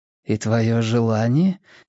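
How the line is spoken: Soft insistence. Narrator (Russian): мягко настаивала

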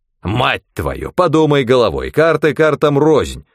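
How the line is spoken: Old man barking. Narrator (Russian): рявкнул дед

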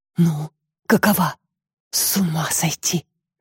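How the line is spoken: Whispered. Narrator (Russian): шептал он мне

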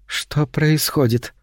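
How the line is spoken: Anxious question. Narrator (Russian): спросила она тревожным голосом

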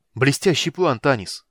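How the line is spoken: Exclaimed. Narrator (Russian): воскликнул Стурм

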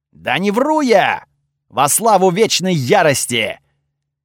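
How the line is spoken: Loud sincere objection. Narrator (Russian): Так же громко и очень искренне возразил Готфрид

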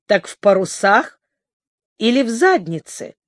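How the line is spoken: Snide question. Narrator (Russian): ехидно переспросил он

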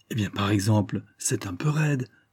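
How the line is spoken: Exclaimed. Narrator (French): s'écria André

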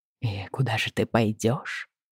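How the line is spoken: Deceptively soft question. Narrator (Russian): обманчиво мягко спрашивает

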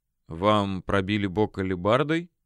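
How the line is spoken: Quiet question. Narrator (Russian): тихо поинтересовался Рихард

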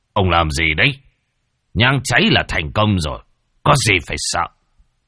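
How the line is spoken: Snapping irritably. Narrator (Vietnamese): Đạo tiểu gắt

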